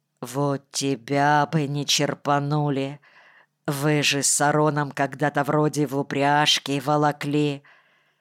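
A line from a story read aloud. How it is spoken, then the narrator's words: Quiet. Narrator (Russian): тихо сказал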